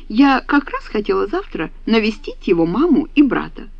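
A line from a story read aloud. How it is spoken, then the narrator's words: Delighted exclamation. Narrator (Russian): Александра с восторгом, просияв, воскликнула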